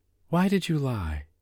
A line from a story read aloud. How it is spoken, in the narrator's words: confusion filling in his deep voice